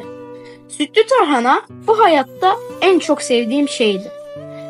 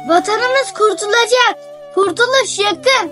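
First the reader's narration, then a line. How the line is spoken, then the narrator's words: Group shouting. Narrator (Turkish): diye bağırıyorduk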